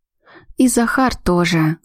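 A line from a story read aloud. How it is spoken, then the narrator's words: Sad sigh. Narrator (Russian): грустно выдохнула Ами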